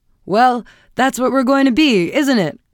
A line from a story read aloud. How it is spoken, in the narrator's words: cried her husband gaily